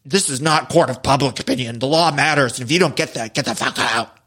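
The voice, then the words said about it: Very deep, lowered-pitch imitated voice. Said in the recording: “her voice lowered three octaves? ... In her voice. ... that even hurt my voice to do. ... my cookie monster impression.”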